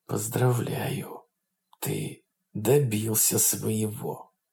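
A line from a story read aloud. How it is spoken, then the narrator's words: Policeman's very muffled quiet whisper. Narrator (Russian): Очень глухо и тихо прошептал полицейский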